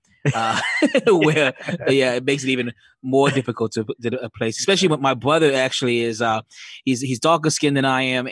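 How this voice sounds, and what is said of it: Jamaican Bronx-ish mixed accent. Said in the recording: “kind of a Jamaican Bronx-ish mixed accent”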